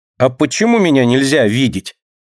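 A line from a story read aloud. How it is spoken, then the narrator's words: Angry question. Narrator (Russian): Сердито спрашивает Динка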